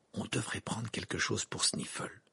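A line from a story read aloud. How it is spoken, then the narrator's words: Murmured. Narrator (French): murmura Harry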